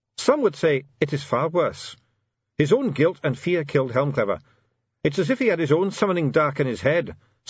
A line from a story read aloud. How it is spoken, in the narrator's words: said Bashwellson